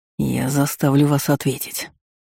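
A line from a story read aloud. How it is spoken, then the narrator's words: Hissed. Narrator (Russian): прошипел Бран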